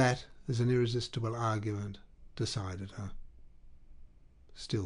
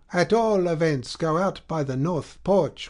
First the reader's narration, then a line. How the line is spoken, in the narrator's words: cried the beadle